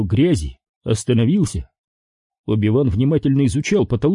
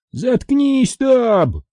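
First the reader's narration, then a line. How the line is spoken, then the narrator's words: Two voices shouting. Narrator (Russian): выкрикнули Чолли и Виз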